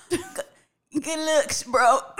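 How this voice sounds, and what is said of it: Imitates another person's voice. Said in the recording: “I tried to do my Jay-Z impersonation ... I don't think it's really coming through the way I needed to ... that sounded more like a goat”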